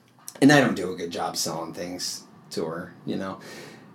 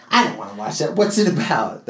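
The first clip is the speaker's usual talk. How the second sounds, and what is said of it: Imitates another person's voice. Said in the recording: “That's my impression of my wife.”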